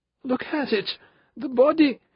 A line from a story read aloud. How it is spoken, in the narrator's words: Benedict wailed